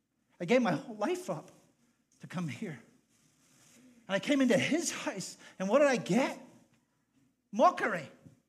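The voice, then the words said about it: Irish accent. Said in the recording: “people would mock my accent ... you didn't understand my accent. And you made jokes like, why don't you go back to Ireland?”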